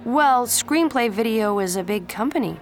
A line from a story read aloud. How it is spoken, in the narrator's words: Pacey replied